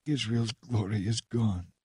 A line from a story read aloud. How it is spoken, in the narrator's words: murmuring